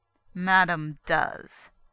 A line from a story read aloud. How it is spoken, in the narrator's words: Trigger told him coldly